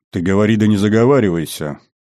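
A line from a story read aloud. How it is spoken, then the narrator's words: Menacing rumble. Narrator (Russian): грозно загудел Бравлин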